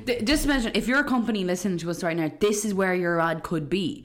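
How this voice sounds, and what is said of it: Irish Dundalk accent. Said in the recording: “my Dundalk accent”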